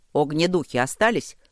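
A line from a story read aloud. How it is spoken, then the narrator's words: Shouted question. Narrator (Russian): крикнул Ровент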